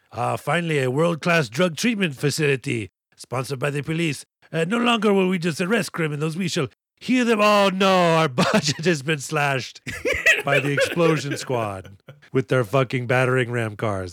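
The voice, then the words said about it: Put-on foreign accent, slipping. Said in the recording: “I'm losing this accent by the second.”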